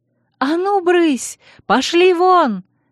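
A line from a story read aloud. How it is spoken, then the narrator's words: Yelling. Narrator (Russian): вопила я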